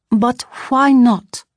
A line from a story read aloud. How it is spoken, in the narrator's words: I asked desperately